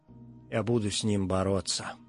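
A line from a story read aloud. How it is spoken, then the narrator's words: Yawning mumble. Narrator (Russian): зевал, бормотал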